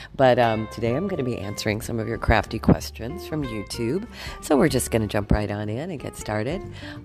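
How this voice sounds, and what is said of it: Congested voice from a cold. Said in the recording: “I'm still got a cold, so excuse the weird voice.”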